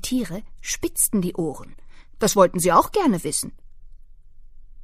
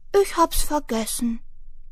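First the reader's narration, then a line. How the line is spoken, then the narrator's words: Soft squeak after sniffling. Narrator (German): Sie schniefte, dachte nach und piepste dann leise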